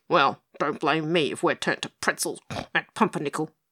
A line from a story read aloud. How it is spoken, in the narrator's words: grunted the pig